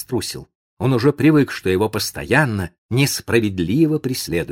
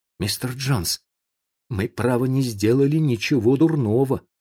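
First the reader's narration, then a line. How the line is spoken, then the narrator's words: Timid. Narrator (Russian): сказал он робко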